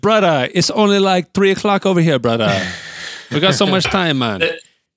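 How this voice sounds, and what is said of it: Put-on Jamaican patois accent. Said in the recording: “that was more of a Jamaican patois accent.”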